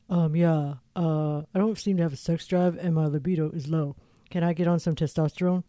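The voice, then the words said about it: Imitates a male patient caller. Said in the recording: “your impression ... my impression ... The guy calls and he's like”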